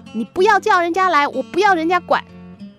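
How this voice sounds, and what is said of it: Angry shouting voice. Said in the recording (Chinese): “愤怒的声音说”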